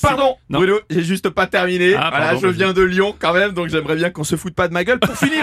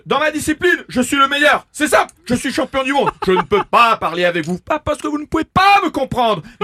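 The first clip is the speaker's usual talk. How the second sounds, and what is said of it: Imitates another person's voice. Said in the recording (French): “une petite imitation ... Une imitation du professeur Raoult”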